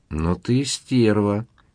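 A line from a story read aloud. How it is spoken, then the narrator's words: Admiring drawl. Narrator (Russian): восхищенно протянул Никита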